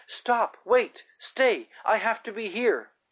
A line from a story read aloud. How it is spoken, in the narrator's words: Excitedly she cried